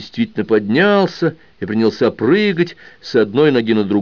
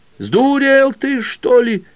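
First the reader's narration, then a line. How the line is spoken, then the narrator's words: Yelling. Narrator (Russian): завопил Егердышка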